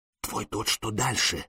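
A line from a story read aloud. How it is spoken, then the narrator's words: Whispered into ear. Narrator (Russian): шепнул Сергей на ухо Машегу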